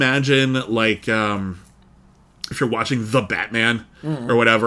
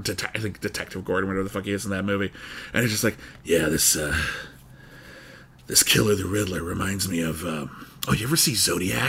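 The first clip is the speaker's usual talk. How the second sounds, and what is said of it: Good Batman impression. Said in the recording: “very good impersonation of the Batman”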